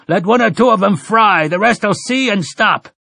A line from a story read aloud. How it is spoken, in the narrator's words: Then to the redhead, the one called Jackley shouted